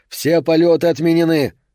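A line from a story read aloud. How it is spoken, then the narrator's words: Shouting. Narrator (Russian): один из полицейских прокричал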